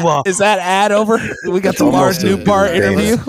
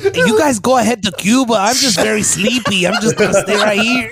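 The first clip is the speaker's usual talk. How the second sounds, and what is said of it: Put-on Mexican accent. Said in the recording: “you sound like a Jewish dude that's pretending to be Mexican ... Mexican impression from the 70s”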